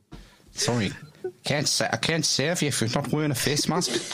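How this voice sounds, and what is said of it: Mashed-up mix of accents. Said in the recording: “international accent ... mash as many accents as I can ... the first, like, sorry is like a South African, almost a South African sorry”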